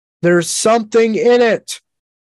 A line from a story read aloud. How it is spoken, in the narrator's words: Truth yelled to Hebrick